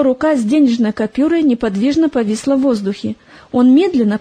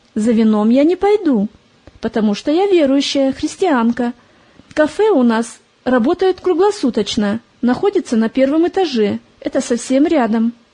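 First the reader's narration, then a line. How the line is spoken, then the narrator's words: Calm answer. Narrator (Russian): Привыкшая к разным посетителям, Полина спокойно ответила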